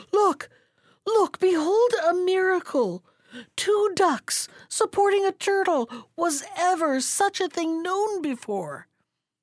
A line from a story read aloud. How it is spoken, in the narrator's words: The people were so astonished at the strange sight that they all, men, women, and children, cried to one another